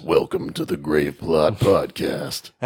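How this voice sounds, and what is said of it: Deep, dramatic trailer narrator voice. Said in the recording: “cool voice... You need to get really deep and dramatic like this... We both have really cool narrator voices. Because we can get really low and creepy.”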